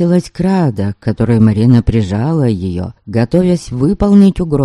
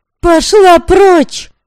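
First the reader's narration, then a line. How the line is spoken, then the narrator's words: Furious shout, nearly drowned out. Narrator (Russian): В ярости крикнула Девляна, и крик ее был почти заглушен лязгом металла о металл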